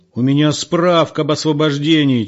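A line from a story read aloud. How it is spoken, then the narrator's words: Near-shout. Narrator (Russian): чуть не заорал ему в лицо Егор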